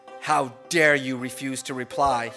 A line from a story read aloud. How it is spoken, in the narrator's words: He asked in a furious tone